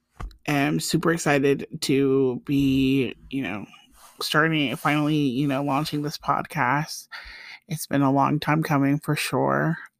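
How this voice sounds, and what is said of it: Nervous, slightly shaky voice. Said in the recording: “I'm a little nervous, so if you can hear it in my voice”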